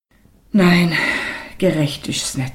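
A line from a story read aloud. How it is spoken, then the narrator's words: Tired mother after pause. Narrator (German): sagte die Mutter nach einer langen Pause müde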